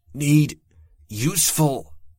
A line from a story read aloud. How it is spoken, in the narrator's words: I grunted and gasped the words, hating how small my voice sounded